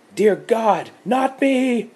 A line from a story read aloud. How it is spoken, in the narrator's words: She screamed